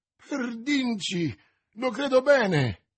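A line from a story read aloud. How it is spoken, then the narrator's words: Gascon's exclamation. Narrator (Italian): esclamò il guascone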